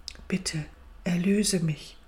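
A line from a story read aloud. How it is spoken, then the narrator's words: Quiet. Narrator (German): Das Reh sagte leise zum Waldgeist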